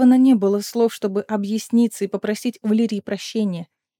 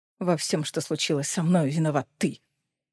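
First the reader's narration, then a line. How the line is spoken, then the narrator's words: Spiteful smirking declaration. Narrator (Russian): Злобно усмехаясь, заявил Коннелл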